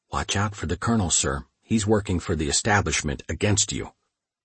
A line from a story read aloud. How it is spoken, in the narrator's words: a smiling clerk sidled up beside me and whispered